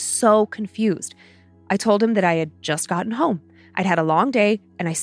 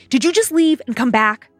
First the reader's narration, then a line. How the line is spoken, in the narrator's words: my husband frantically ran out to the garage yelling at me